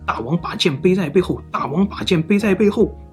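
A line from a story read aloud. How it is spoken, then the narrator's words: Shouting. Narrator (Chinese): 衣冠下无居喊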